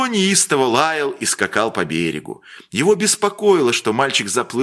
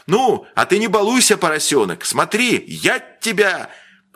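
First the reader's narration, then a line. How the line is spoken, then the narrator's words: Grandfather's anxious shout. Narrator (Russian): Дедушка крикнул тревожно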